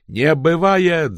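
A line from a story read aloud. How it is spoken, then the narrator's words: Yelling. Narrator (Russian): заорал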